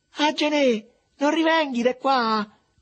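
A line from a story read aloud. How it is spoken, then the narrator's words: Anguished repeated shouting. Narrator (Italian): continuava intanto a gridare con voce accorata a Mariuccio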